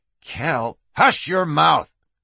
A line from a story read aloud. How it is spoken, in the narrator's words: McCrow hissed